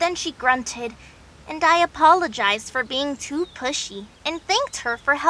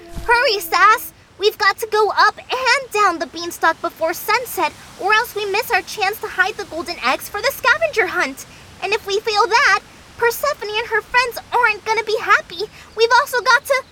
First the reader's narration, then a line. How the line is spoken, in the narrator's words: I had to yell at Sasquatch over the wind